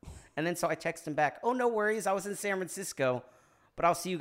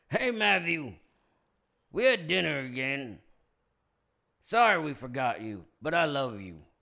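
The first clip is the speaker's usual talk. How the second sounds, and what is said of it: Garrett Morris impression. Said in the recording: “it's my Garrett Morris impression.”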